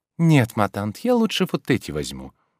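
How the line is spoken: Soft. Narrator (Russian): говорила Ольга мягко

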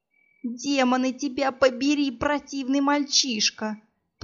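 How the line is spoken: Groaning from the ground. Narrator (Russian): простонала я с земли

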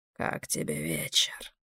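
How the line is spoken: Muffled under hood. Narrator (Russian): Голос говорившего звучал глухо из-за низко опущенного капюшона

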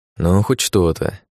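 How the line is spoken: Sigh. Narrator (Russian): вздохнул

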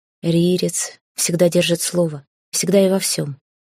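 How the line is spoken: Icy interruption. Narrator (Russian): ледяным голосом оборвал короля Хейга

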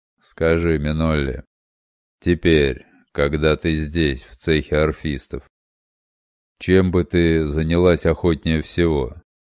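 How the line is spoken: Flat indifferent voice. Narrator (Russian): Спросил мастер Доми с таким безразличным, невыразительным голосом

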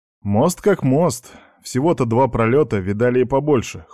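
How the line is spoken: Skeptical snort. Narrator (Russian): хмыкнул Аникеев

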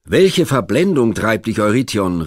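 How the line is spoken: Calling out. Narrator (German): rief Theseus

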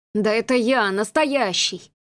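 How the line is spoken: Groan. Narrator (Russian): простонал маркиз

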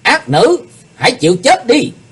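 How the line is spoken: Shout. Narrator (Vietnamese): tiếng quát

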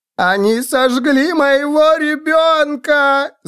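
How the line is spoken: Woman screaming. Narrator (Russian): завопила женщина

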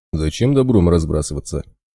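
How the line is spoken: Bear's snort. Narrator (Russian): хмыкнул медведь

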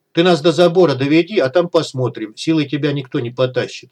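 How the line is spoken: Plain. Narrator (Russian): ответил Малахов

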